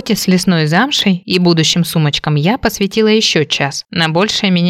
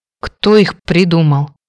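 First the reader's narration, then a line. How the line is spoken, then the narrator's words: Grumbled. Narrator (Russian): пробурчала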